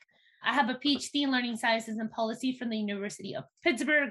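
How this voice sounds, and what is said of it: Mexican Spanish accent in English. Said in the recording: “as a Mexican immigrant, English is my second language. And that's why you hear that I have an accent when I speak.”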